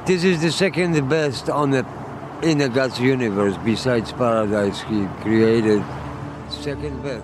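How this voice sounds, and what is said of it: Heavy Polish accent. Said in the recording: “speaks with a heavy Polish accent”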